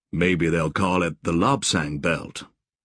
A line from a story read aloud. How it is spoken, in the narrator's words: Joshua said dryly